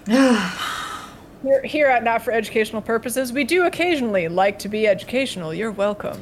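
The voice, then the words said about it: Smooth, crisp radio announcer voice. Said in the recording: “This is my radio announcer voice... Very soothing... Get that crisp tone... I'm channeling my inner Cecil from Welcome to Night Vale”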